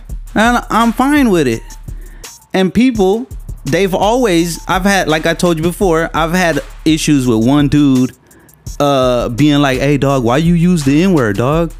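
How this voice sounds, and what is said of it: Natural twang, a bit hood. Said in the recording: “My natural twang, I hear, is like a little hood, a little this, a little that.”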